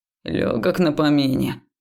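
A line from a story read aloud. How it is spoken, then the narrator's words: Grumble. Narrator (Russian): проворчал Векс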